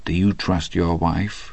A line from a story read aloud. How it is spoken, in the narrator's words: he said very softly to Hadley